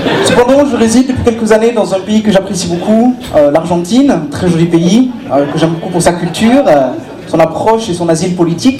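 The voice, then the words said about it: Put-on German accent speaking French. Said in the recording (French): “comme vous avez pu euh, le remarquer, par mon petit accent, ... je ne suis pas breton, je suis allemand, je viens de l'Allemagne.”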